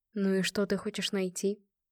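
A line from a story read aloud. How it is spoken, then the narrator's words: Quiet question. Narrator (Russian): негромко поинтересовался Марат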